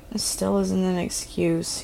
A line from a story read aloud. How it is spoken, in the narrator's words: mumbled